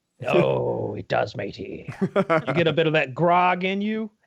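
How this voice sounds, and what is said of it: Put-on pirate accent. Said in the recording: “I bet that helps the pirate accents.”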